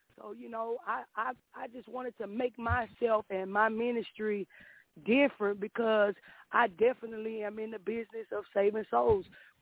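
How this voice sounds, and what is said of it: Southern US accent. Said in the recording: “I hear that southern accent. I can hear that down yonder.”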